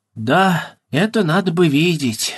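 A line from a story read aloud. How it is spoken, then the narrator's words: Sad, thoughtful. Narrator (Russian): грустно и задумчиво сказал Эрзи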